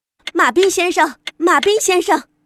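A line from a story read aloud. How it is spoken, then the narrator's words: Shouting. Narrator (Chinese): 他大喊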